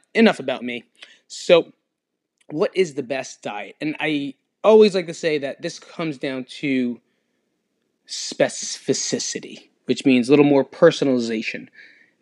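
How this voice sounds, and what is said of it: Sick, under-the-weather voice. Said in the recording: “If you can't tell by my voice, I am a little under the weather”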